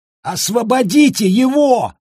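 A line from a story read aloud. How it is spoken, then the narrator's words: Shocked hoarse shout. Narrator (Russian): В шоке хрипло прокричал кто-то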